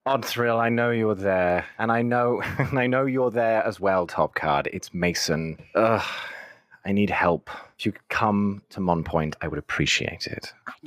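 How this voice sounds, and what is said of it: Put-on British accent. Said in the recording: “the only respectable British accent I remember in this entire campaign”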